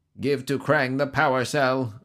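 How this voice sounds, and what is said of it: Robotic character voice. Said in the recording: “a robot voice ordered.”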